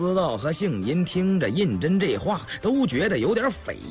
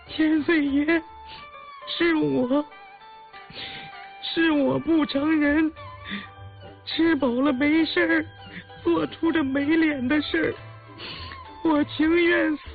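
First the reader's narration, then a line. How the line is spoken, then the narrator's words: Terrified tearful sobbing. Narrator (Chinese): 眼泪成串的往下落……越发唬得浑身发抖，连连在地下磕头抽泣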